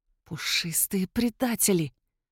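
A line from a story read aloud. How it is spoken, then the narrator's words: Hissing. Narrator (Russian): прошипела я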